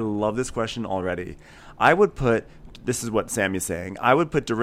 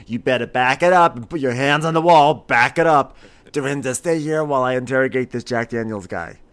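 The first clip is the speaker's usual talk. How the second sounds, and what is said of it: Poor Kim Richards impression. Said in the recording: “my terrible Kim Richards impersonation.”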